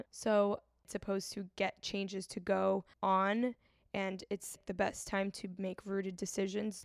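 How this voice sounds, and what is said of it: Raspy, tired voice. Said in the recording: “my voice is so raspy ... running on 4 hours of sleep ... drink some tea to sound better”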